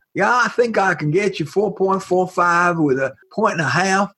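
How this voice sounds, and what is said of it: Poor put-on Southern accent. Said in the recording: “It sucks, right? It really is terrible, right? It's a New York Jew's attempt at a Southern accent.”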